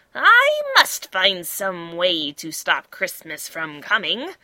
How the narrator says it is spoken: he growled

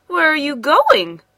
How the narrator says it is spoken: cried Mama Zhang

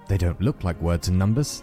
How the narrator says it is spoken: the ant said

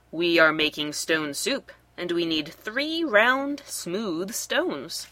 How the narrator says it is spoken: said Sue

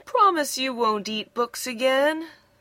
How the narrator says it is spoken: yawned Bradley sleepily

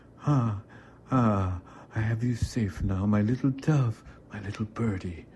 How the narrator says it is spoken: cooed sweetly at me between kisses and finally gasped

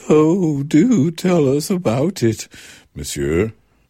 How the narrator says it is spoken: Breathlessly, and as if with one voice, several of the ladies exclaimed

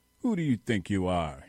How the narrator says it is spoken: he said, in a harsh voice

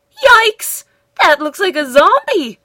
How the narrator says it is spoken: Shaggy shouted

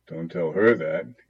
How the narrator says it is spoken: he said, chuckling

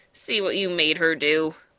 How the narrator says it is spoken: grumbled Fly

